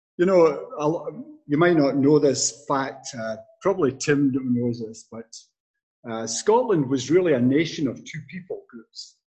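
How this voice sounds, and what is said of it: Strong unchanged foreign accent. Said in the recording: “I never lost my accent. I've been here 50 years and I still sound as if I just stepped off the boat.”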